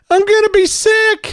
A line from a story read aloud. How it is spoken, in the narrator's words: One little boy yelled out